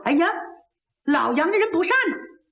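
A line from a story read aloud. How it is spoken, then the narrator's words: Inner thought. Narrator (Chinese): 老贼庞文心想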